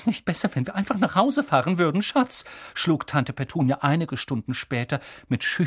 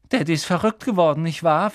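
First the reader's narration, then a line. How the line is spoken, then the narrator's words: Dull-voiced question. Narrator (German): fragte Dudley mit dumpfer Stimme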